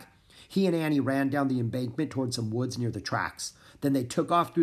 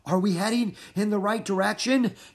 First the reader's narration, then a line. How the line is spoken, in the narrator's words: asked, panting